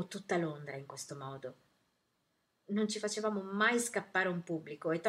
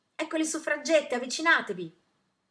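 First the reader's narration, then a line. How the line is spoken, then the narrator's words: Yelling heard around. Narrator (Italian): Per tutto il vicinato si sentiva urlare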